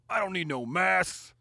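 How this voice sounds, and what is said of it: Put-on Southern accent. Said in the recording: “in a southern accent, he says”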